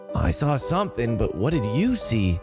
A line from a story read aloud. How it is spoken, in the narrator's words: Johnny asked in the same whisper